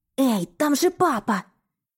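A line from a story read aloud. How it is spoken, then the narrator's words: Hissed. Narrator (Russian): прошипела я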